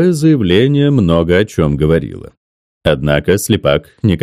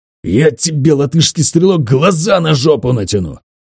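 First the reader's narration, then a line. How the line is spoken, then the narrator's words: Hiss, losing restraint. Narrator (Russian): Леня Слепак не сдержался и прошипел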